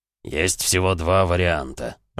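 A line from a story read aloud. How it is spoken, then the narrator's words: Booming drone. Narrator (Russian): прогудел Эмик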